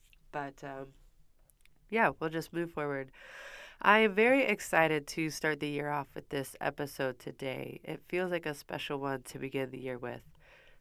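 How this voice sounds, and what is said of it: Sick, slightly rough voice. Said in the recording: “I did get the Humboldt crud that's going around, so I apologize if my voice sounds a little less pleasant than usual.”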